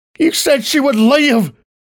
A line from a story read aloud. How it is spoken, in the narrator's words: I screeched at my captors who had chained me down